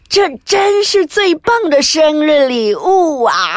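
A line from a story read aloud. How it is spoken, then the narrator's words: Delighted old woman's cry. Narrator (Chinese): 丽萨奶奶惊喜的叫道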